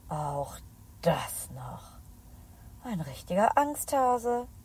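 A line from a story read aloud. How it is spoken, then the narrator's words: Muttering. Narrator (German): Isabella murmelt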